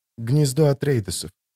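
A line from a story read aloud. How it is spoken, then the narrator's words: Muttered. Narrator (Russian): пробормотала Джессика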